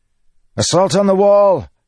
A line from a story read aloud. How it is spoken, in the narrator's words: Kaladin shouted